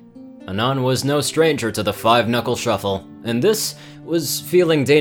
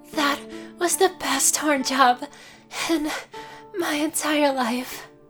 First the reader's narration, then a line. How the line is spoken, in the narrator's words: she said breathlessly